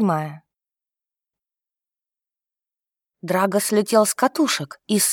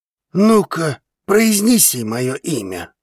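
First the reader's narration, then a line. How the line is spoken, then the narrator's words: Growl into ear. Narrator (Russian): рычал он на ушко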